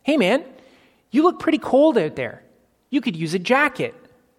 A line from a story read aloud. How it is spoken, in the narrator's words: They yelled out